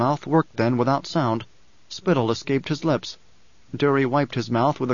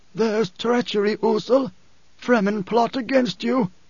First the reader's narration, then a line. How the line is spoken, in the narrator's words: he gasped